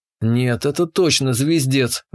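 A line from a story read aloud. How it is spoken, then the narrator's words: Grumbling. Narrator (Russian): ворчал я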